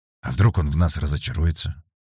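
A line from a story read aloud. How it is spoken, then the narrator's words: Very quiet question. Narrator (Russian): очень тихо спросил Бочка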